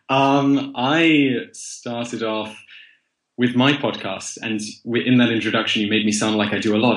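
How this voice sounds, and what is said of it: Very plummy English accent. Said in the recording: “your very plummy English accent”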